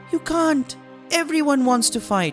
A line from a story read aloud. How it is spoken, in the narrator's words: The boy cried